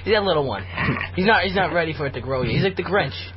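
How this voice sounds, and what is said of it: Boston accent. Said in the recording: “That's why you're hearing the funny heart expression... It's a Boston accent.”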